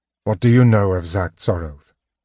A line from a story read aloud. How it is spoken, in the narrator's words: Tanis asked